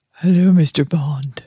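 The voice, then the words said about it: Old librarian-like character voice. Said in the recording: “I'm supposed to be Miss Moneypenny ... Miss Moneypenny sounds like an old librarian”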